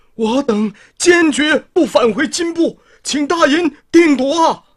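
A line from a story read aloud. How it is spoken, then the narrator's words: Anxious pleading shout. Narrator (Chinese): 白灵二人急得直叩头喊着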